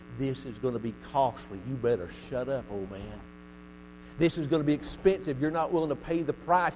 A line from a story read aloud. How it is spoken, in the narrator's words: the devil was whispering in his ear